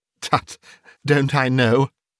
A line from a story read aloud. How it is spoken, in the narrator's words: she added in the same breath, laughing as he laughed